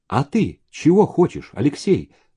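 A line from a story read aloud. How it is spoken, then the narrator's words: Plain. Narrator (Russian): спросил Зеленин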